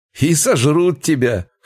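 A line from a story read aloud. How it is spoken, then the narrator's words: Young man's guffaw. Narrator (Russian): хохотнул один из парней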